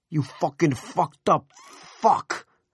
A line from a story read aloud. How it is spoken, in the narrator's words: Mel roared